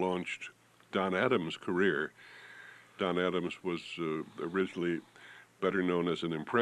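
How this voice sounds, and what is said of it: Usual voice. Nothing is said of it.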